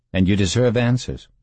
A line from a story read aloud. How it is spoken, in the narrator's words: Bunnell said